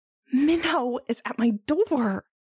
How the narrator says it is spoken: Jisung hisses

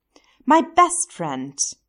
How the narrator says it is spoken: Stiles exclaimed

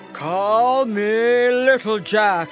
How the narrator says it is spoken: he roared

